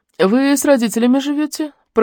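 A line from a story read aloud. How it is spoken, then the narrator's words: Sudden speech. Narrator (Russian): проговорила вдруг Лариса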